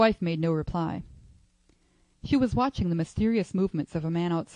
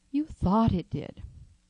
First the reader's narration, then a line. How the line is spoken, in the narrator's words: said the old lady, soothingly